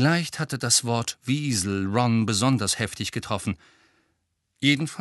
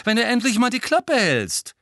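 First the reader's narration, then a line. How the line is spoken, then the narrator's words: Loud interjection. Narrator (German): warf Ron laut ein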